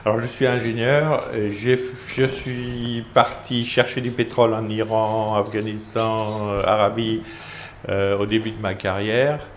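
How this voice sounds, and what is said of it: Alsatian French accent. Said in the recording (French): “je suis alsacien, alors mon accent c'est de l'allemand, de l'anglais et du français mélangé”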